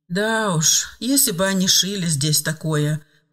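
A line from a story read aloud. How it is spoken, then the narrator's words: Laughing. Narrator (Russian): рассмеялась Лена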